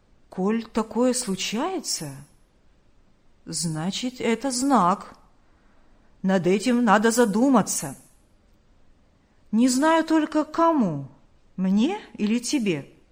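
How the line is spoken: Calm. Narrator (Russian): спокойно сказал он

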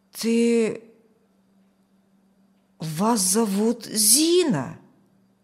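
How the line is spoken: Strained, nearly assertive. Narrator (Russian): Почти утвердительно выдавил он

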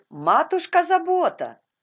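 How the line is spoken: Shout. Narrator (Russian): крикнула Резли

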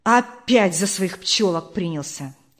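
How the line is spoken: Angry voice. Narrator (Russian): сказал кто-то сердито

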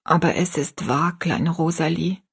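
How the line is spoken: Plain. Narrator (German): sagte ihre Mutter

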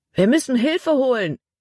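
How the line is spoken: Called out. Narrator (German): rief Caleb

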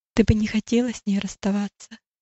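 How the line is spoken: Gentle question. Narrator (Russian): Няня ласково спросила

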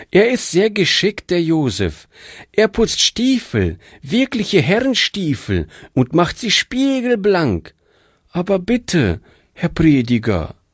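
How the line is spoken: Pleading. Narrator (German): flehte sie

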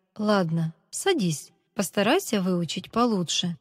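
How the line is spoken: Plain. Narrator (Russian): сказал учитель

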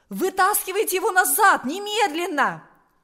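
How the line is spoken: Exclamation. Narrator (Russian): воскликнул он

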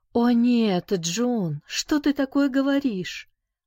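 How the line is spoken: Exclamation. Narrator (Russian): воскликнула

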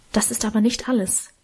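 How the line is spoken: Whisper. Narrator (German): flüsterte Emma

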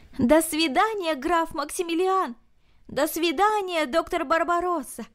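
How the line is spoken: Shouting after them. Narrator (Russian): Барти крикнул им вслед

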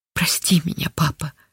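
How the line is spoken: Whispered. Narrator (Russian): шептала Линда

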